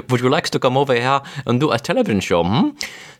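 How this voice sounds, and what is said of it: Put-on German accent. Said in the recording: “he gets a phone call from Germany ... I'll do a better accent”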